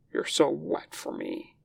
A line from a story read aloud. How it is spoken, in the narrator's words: he tells Weying, letting his voice go rough